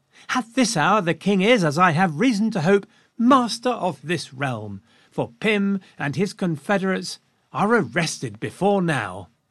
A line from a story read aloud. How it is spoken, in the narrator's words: Henrietta Maria perked up, and she exclaimed to Lucy